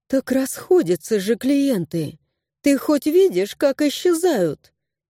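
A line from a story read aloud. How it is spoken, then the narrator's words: Sighing. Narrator (Russian): вздохнула Виста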